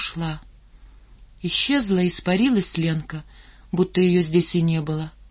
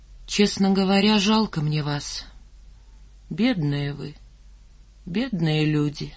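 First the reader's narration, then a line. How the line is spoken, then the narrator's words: Serious and sad. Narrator (Russian): серьезно и грустно сказала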